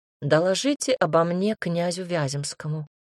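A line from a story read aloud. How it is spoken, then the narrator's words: Calm reply. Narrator (Russian): спокойно ответил Милош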